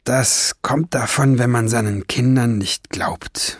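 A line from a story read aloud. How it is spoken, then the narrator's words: Gloomy murmur. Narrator (German): murmelte Barnabas Wiesengrund düster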